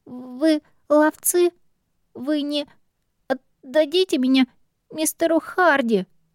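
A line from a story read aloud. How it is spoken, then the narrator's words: Trembling question, foundling. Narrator (Russian): Дрожащим голосом спросил найденыш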